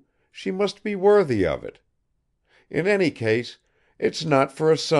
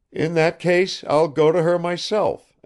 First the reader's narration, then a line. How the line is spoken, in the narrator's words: exclaimed Arkady, with a fresh onrush of generous excitement